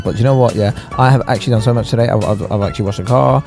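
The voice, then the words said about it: Very fast hyper speech. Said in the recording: “I'm talking so fast”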